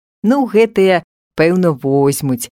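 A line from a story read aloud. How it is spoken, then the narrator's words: Laughing. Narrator (Belarusian): засмяяўся Паўлік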